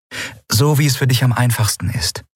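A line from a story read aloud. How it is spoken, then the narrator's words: Plain. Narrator (German): sagte Endriel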